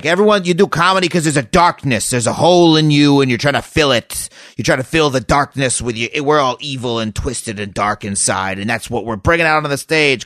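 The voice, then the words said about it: Imitates another person's voice. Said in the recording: “your Marc Maron impression ... the accent was just okay”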